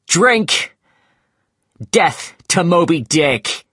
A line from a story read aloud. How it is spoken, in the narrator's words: he shouted